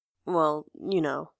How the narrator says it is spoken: he mumbles

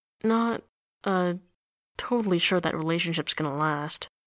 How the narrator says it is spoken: he mutters

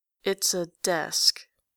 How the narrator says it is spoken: says Grantaire slowly

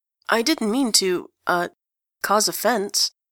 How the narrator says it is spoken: he stammers, looking genuinely stricken

